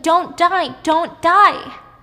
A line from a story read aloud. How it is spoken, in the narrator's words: And she's screaming